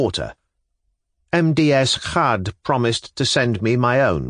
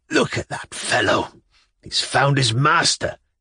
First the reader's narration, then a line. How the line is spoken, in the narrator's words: said, stammering out the words in a voice strangled by weakness, for he had now not long to live